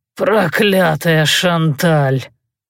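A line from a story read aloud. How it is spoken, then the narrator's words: Moaning. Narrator (Russian): стонал Гастон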